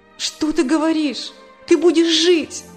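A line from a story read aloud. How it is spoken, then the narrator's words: Exclaiming. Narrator (Russian): воскликнула Саша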